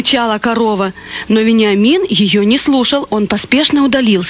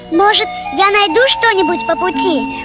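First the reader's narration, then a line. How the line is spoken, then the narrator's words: Excited squeaky voice. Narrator (Russian): пропищал возбужденный мышонок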